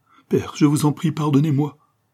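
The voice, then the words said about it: Heartrending, anguished tone. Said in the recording (French): “avec un accent déchirant”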